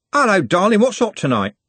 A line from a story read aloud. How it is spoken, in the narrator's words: Trev … said, cheerfully